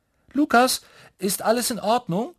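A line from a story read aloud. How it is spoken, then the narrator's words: Calling from another room. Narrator (German): ruft Mama aus dem Badezimmer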